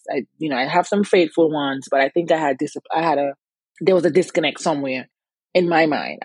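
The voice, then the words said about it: Antiguan accent. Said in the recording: “if you hear an accent, yes, I am from Antigua. I have it.”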